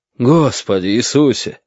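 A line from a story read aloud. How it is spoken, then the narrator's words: Loud exclamation. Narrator (Russian): громко выдохнул профессор Доренский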